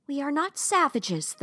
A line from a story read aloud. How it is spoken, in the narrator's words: the princess shouted